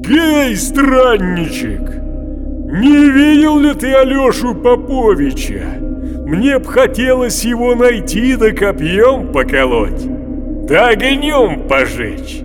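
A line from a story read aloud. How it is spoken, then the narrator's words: Groaning old man's voice. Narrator (Russian): закряхтел, застонал и в ответ стариковским голосом отвечает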